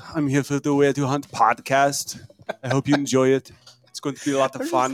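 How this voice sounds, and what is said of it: Terminator character impression. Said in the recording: “accents ... We have the Terminator”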